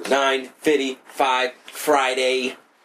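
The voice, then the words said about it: Robot voice. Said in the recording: “That's my new robot voice for today.”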